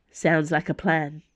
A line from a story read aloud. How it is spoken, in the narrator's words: said Dana